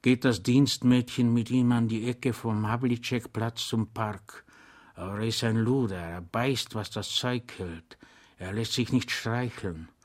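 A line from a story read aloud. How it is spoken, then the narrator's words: Whispering. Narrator (German): sagte der Zivilist flüsternd zu dem Soldaten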